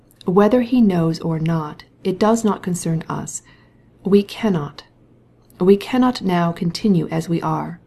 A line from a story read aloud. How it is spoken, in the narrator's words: he said, in a calm but authoritative voice